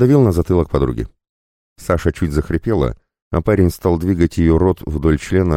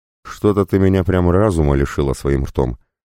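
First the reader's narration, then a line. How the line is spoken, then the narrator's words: Grumbling mutter. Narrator (Russian): буркнул Паша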